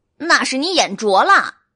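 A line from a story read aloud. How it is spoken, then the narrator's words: Roaring. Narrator (Chinese): 黎奴吼道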